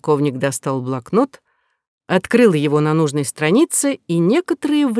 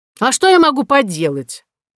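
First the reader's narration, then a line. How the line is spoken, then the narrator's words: Shouted like a battle cry. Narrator (Russian): Полковник закричал, словно призывал всех идти в атаку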